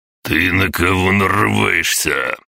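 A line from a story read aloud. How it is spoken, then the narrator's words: Roar. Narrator (Russian): взревел 57-й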